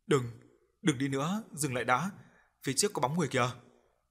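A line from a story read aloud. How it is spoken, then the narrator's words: Trembling voice. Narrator (Vietnamese): Thái run run nói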